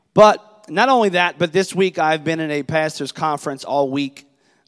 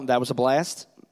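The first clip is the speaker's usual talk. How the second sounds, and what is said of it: Sarcastic tone. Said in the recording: “I'm totally being sarcastic.”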